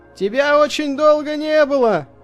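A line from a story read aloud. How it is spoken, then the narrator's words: Shouting over wind. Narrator (Russian): крикнул он сквозь ветер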